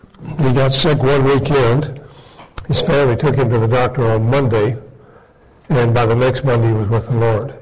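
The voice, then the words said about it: Voice giving out, strained. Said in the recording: “my voice is kind of, I think it's going on me here.”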